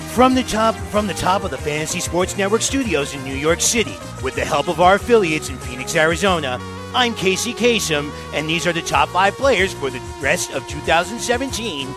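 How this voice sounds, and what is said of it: Casey Kasem radio announcer impression. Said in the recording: “Casey Kasem impression ... that amazing impression ... that amazing Casey Kasem impression”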